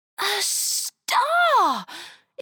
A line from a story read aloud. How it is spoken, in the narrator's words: exclaimed Arthur, his sore throat sounding more clear than it had done before